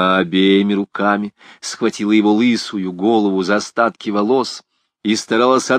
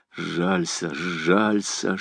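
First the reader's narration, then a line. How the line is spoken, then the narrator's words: Whisper. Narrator (Russian): шептал священник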